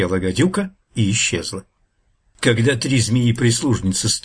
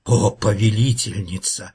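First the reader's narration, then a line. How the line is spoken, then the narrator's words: Elder viper's timid hiss. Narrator (Russian): робко прошипела старшая гадюка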